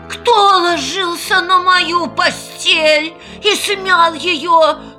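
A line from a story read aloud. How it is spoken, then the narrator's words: Low quiet growl. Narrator (Russian): зарычал Настасья Петровна не так громко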